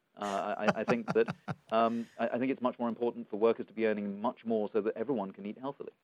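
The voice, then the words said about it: Speaks with a noticeable accent. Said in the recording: “I'm not so much of a snob, despite my accent.”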